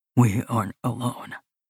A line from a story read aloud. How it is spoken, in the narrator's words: he whispers